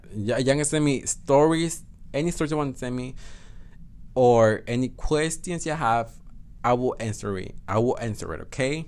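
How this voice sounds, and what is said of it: Speaks with own non-native accent. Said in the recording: “fucking accent. I fucking hate my accent.”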